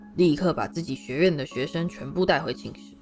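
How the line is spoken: Deep stern command. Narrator (Chinese): 他沉声喝道

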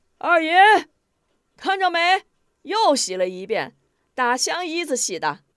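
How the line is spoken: Shouting. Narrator (Chinese): 爱五子 喊叫

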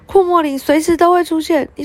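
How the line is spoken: Loud, young witch. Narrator (Chinese): 小女巫大声地说

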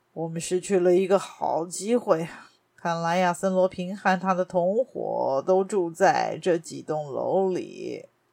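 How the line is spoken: Long sigh. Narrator (Chinese): 加尼玛尔长叹了一口气

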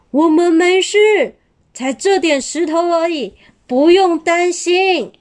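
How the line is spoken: Shouting. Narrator (Chinese): 利克拉大喊着

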